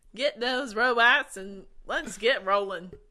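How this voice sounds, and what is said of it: Put-on Southern American accent. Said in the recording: “is a southern boy now.”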